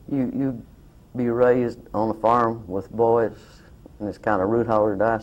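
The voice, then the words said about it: Southern US accent. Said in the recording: “my southern accent, my hillbilly ways”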